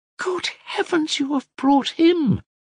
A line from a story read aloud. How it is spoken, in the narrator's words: she exclaimed, recognizing Alyosha